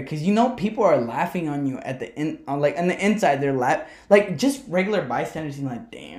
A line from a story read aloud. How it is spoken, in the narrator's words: he stuttered